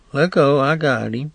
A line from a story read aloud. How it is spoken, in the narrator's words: She said to the two men, quietly